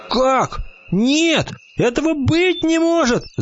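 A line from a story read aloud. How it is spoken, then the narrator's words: Indignant shout. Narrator (Russian): закричал зайчик от возмущения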